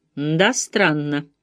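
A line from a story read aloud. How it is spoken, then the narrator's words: Muttering. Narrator (Russian): пробормотал Дермот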